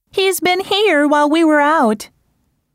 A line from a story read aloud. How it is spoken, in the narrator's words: exclaimed Marianne